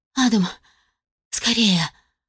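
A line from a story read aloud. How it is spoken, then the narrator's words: Moan. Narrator (Russian): простонала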